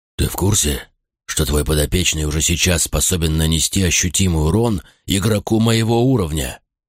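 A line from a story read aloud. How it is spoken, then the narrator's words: Displeased question after swearing. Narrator (Russian): Закончив ругаться, недовольным тоном поинтересовался Тагрон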